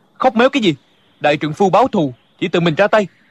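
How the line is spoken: Angry. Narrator (Vietnamese): Địch dân tức giận nói

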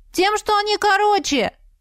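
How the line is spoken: Shouted out, bold man. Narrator (Russian): выкрикнул с места один смельчак

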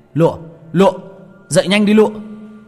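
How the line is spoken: Panicked shout. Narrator (Vietnamese): Tôi hoảng hồn, miệng hét lên

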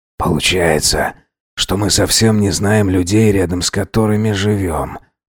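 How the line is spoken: Muttered. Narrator (Russian): пробормотал Алхасов

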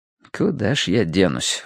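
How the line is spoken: Silent inner sigh. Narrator (Russian): вздохнул я мысленно

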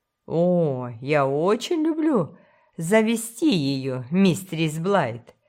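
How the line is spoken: Laughing. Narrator (Russian): засмеялся не раскаявшийся грешник

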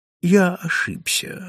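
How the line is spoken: Calm reply. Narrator (Russian): спокойно ответил Дольчепиано

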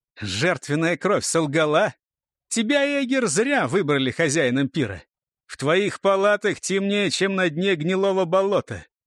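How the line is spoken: Loud speech. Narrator (Russian): громко сказал

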